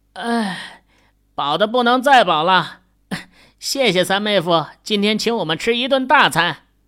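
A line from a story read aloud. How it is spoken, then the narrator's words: Laughing question. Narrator (Chinese): 秦宇笑着问道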